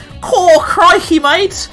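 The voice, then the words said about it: Exaggerated put-on Australian accent. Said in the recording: “the Australian accent they might have put on a little bit too much in places”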